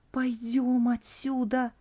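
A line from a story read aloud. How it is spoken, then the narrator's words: Pleading. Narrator (Russian): взмолилась Шуршава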